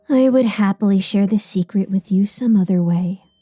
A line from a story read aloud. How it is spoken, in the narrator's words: Raziel says with a sigh